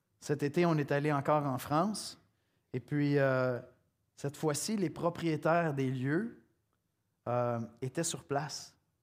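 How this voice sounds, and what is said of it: Quebec French accent. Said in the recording (French): “avec mon bel accent québécois”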